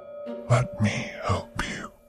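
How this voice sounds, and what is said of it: Deep seductive male whisper. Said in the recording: “Pietro's deep voice whispered seductively.”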